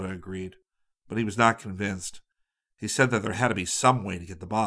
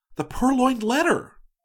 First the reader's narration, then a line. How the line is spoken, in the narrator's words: exclaimed suddenly